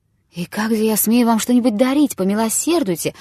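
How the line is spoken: Exclaiming. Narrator (Russian): воскликнул жид

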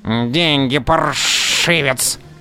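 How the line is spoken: Hiss. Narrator (Russian): шипел низенький

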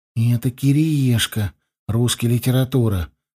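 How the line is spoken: Whispering into ear. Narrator (Russian): прошептал мне Славка прямо в ухо

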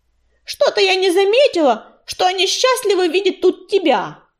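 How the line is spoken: Shouted out. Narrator (Russian): выкрикнула она

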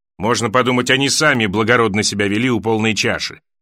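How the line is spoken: Snapping retort. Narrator (Russian): огрызнулся горожанин

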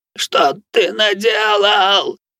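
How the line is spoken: Old man's moan. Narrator (Russian): простонал старик

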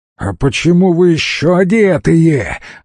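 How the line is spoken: Shouting. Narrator (Russian): закричал он

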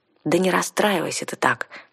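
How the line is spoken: Soft. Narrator (Russian): мягко сказала я

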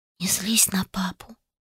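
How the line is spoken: Whisper. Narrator (Russian): прошептала Лес

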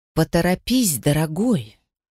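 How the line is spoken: Affectionate but irritated. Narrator (Russian): Ласково, но с сочащимися раздражением нотками произнесла Тисса Мальяна

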